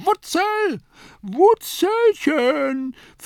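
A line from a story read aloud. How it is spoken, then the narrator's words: Lady calling out. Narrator (German): rief die linke Dame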